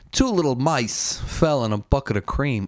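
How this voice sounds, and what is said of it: Christopher Walken impression. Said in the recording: “do a Christopher Walken impression”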